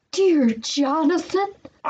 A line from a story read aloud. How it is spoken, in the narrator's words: cried Mr